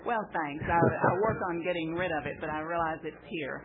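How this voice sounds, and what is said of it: Texas accent. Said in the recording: “That Texas accent is down home to me”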